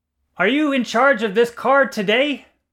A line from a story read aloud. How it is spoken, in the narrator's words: Asked Eisnick, shouting